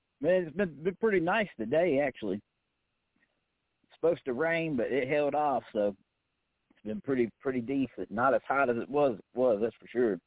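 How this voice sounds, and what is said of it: Southern US (East Tennessee) accent. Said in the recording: “You got a southern accent. ... I'm over here in East Tennessee, so definitely got the southern draw for sure.”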